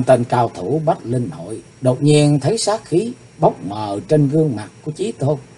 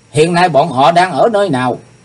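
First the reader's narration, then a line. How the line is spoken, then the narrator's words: Loud shout. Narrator (Vietnamese): Chàng quát to lên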